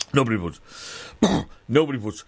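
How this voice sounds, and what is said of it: Imitates another person's voice. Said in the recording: “your Patrick Swayze impression”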